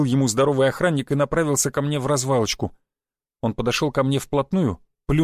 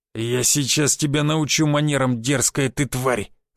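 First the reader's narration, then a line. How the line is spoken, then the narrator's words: Growling. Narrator (Russian): зарычал он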